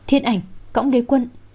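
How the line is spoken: Involuntary cry. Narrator (Vietnamese): vô thức kêu lên

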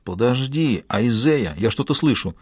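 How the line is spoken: Whispering. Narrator (Russian): Стю прошептал

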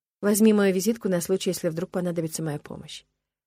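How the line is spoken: Quiet, close. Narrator (Russian): Алекс наклонился ближе и сказал тихо

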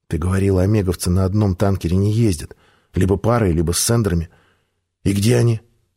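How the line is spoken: Plain. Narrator (Russian): спросил я

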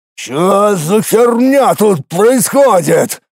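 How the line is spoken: Boar roaring. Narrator (Russian): взревел кабан

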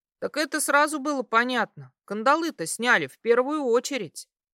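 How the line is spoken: Snorted. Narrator (Russian): хмыкнул Поль

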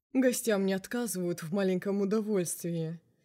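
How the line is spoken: Glum remark. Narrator (Russian): уныло заметил он

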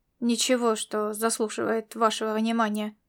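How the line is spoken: Annoyed grumble. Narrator (Russian): буркнул он с досадой в голосе

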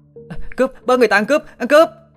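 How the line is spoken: Panicked shouting. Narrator (Vietnamese): hốt hoảng la lên

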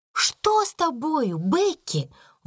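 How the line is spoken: Exclamation. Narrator (Russian): воскликнула Сара

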